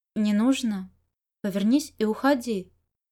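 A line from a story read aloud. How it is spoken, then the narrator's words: Soft speech. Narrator (Russian): Чуванин мягко сказал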